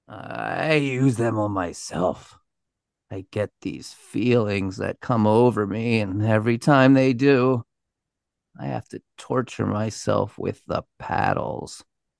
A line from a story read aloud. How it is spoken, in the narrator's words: he mumbled